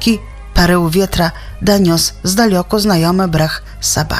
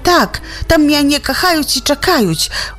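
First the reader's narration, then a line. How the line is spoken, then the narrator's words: Excited shepherd boy exclaiming. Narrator (Belarusian): усхвалявана выклікнуў пастушок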